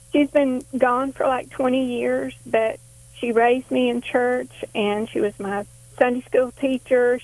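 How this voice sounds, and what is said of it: Emotional, voice close to tears. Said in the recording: “I'll get emotional”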